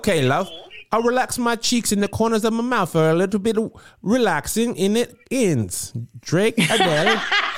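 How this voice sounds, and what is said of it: Attempted British accent. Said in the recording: “when you're doing the accent ... It did sound worlds better to me.”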